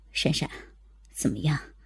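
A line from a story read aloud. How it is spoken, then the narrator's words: Quiet voice. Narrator (Chinese): Marco 小声的说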